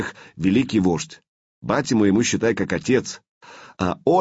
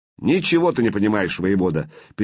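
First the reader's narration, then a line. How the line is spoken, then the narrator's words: Angry interruption. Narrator (Russian): перебил Славка сердито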